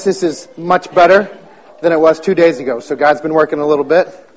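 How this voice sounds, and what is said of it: Strained voice that may crack. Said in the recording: “apologize for my voice. ... So if it cracks or anything like that”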